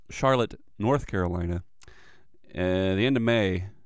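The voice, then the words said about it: Put-on Irish accent. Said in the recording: “I don't know why I'm breaking into an Irish accent, but it's kind of what I do.”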